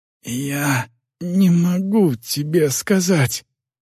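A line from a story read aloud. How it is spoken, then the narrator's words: Boy's hoarse wheeze. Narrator (Russian): прохрипел мальчик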